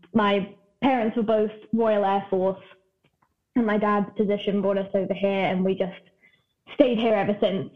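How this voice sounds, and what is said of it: Strong British accent. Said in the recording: “I'm from the UK originally ... I know the accent is still strong ... So it should really be gone by now, but it's not.”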